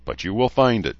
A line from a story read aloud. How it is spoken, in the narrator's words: Jody said